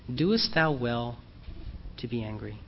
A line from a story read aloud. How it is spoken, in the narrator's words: God gently challenges Jonah